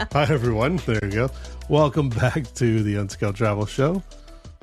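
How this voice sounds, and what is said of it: Hoarse, cracking voice. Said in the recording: “lost my voice ... Apparently, I'm going through puberty”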